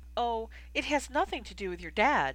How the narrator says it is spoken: Hermione exclaimed

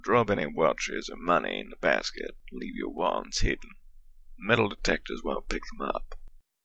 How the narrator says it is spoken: Spalding muttered at them

